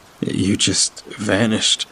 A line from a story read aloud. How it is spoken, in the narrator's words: my brother told me, his voice halting and stuttering between shivers, echoing strangely in the tunnel